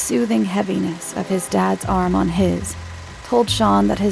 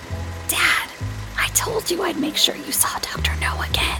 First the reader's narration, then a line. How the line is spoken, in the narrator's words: whispered loudly over the film's opening chorus